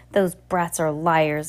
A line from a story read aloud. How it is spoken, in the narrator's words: Esme snapped